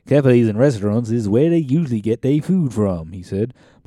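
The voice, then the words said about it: Reading in a put-on accent. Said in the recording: “I just feel like that needs an accent.”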